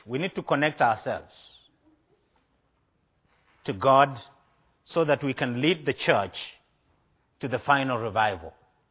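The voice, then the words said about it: Speaker's own noticeable accent. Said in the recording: “You like me, but not my accent. I know that. ... Oh, you like my accent?”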